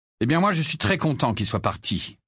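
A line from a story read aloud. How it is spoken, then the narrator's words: Cold retort. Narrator (French): répliqua froidement Harry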